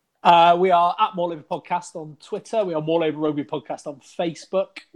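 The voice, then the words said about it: West Country English accent. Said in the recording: “with a West Country accent. ... give us your West Country dulcet tones”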